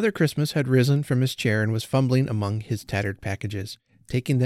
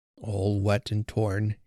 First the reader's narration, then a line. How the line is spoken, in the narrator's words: he murmured, and his voice sank again into sadness